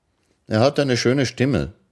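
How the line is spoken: Plain. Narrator (German): sagte Arobanai

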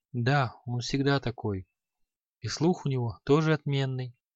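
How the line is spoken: Barely audible whisper. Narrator (Russian): еле слышно прошептал Креол

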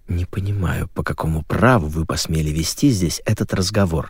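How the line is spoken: Hissed. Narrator (Russian): прошипела

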